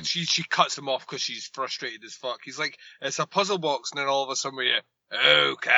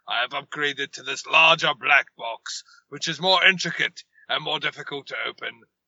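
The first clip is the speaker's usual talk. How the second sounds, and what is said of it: Mildly amused, disinterested Pinhead impression. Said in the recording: “terrible pinhead impression where I sound mildly amused, but at the same time disinterested in this scene”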